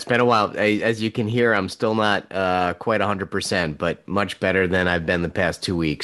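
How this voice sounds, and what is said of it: Deep voice from being unwell. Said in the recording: “you've got like a very nice, like deep voice... I know you're not feeling well”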